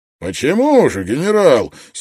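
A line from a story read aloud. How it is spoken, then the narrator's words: Angry question. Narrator (Russian): сердито спросил адмирал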